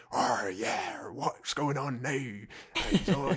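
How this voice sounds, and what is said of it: Put-on pirate West Country accent. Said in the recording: “spoofing Willem Dafoe's accent ... a proper piratey accent, which is also a bit West Country”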